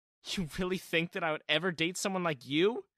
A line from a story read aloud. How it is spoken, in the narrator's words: she had laughed